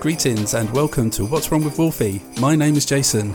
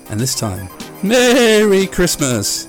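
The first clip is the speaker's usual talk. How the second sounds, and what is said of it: Eerie ghost-like drawn-out call. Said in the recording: “Jesus, I sounded like a blinking ghost, didn't I?”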